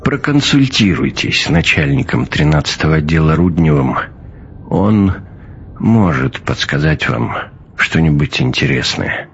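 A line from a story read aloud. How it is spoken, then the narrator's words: Quiet speech. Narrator (Russian): сказал негромко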